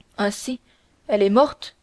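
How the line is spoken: Stammered. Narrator (French): balbutia d'Artagnan

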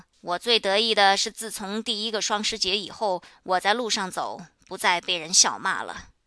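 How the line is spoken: Loud, smiling. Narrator (Chinese): 恩忽然现出笑容 高声说

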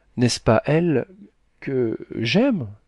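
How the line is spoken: Stammering. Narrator (French): dit le commis en balbutiant

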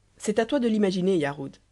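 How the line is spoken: Plain. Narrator (French): répondit Scarpante

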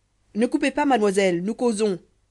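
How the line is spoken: Shouted. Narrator (French): cria Avio

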